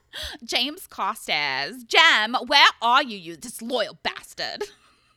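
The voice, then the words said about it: Put-on Essex accent. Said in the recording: “now do it in an Essex accent ... I just tried to imitate Chris Pratt. Imitating someone from Always Essex”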